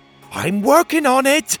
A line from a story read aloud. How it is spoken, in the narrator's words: Pocket shouted